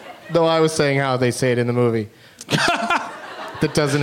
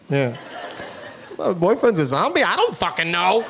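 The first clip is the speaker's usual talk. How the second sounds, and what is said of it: Imitates another person's voice. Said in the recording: “That's a very good impression of me, too. It's very authentic.”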